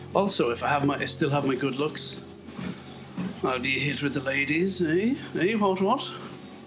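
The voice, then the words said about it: Irish accent. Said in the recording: “I'd keep the Irish accent ... with the old Irish accent”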